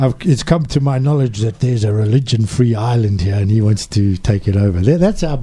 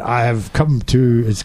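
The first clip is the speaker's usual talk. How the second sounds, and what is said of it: Bond villain accent. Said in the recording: “the Bond villain has said ... You got the accent.”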